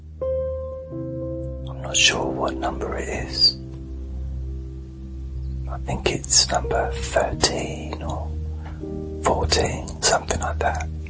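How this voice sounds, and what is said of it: Soft whispered speech. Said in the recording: “Deep Sleep Whisper”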